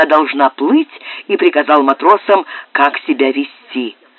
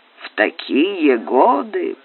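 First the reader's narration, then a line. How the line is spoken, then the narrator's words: Grumbling. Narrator (Russian): пробурчал Пэдди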